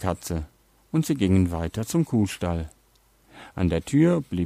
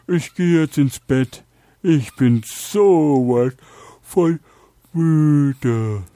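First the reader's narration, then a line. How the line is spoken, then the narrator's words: Dog calling out. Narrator (German): der Hund ... rief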